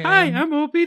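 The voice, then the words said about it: Playful otter character voice. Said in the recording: “You can do the voice. ... pretend to be an otter.”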